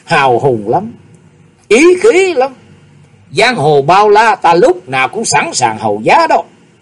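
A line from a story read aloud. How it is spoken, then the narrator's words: Menacing loud laugh. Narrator (Vietnamese): Hắc y nhân mặt đầy sát khí, nhưng đột nhiên cười to nói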